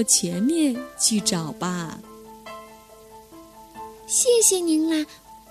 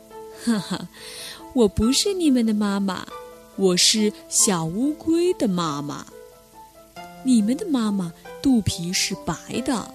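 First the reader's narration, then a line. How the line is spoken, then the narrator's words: Laughing old turtle. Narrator (Chinese): 大乌龟笑着说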